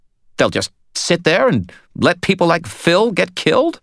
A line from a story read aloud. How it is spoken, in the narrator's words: he demanded, his voice outraged